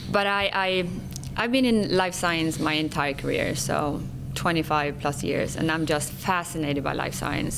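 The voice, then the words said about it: Swedish-accented English. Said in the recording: “my accent would probably give that away... I'm born and raised in Sweden... I speak Swenglish”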